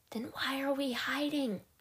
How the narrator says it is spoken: She whispered, hating how her voice was trembling

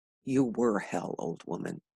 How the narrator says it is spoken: he mumbled

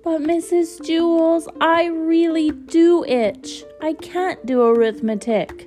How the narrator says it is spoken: Dana whined

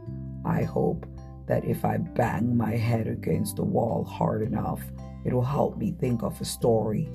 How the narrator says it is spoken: said Toad

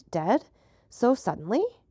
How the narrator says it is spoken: Villefort exclaimed

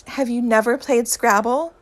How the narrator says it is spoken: Harry shouts, in irritation

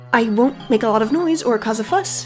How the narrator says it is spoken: Roisin said quickly

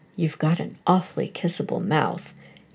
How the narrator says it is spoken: he began quietly

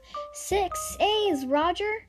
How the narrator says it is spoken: she called out

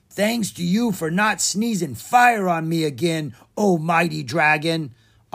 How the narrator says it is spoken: Osgood called out from inside the trunk

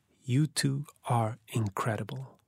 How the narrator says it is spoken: I leaned toward the black net that separated the front and back seat and whispered

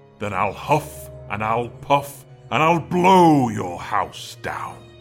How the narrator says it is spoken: growled the big bad wolf

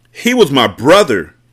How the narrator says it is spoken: Monroe shouted

